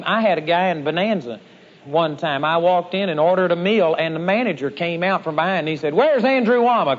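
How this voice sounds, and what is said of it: Texas twang. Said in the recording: “my Texas twang”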